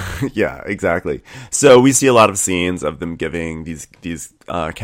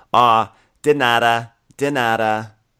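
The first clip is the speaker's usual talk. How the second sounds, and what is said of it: Weak imitated Spanish accent. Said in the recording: “I just laugh at her Spanish accent, which is so, like, not even an attempt”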